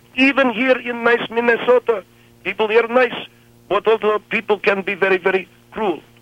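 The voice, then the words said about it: Thick foreign accent. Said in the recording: “I am foreign man. Because I speak with thick accent.”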